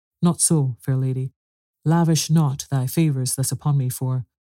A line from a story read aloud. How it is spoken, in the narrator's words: little Nutcracker said very earnestly